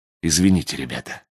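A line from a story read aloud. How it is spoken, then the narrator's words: Guilty whisper. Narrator (Russian): прошептал я, действительно чувствуя себя виноватым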